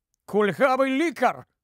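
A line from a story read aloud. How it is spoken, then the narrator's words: Exclamation. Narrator (Ukrainian): вигукнув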